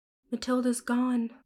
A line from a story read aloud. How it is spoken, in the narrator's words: I said, and sighed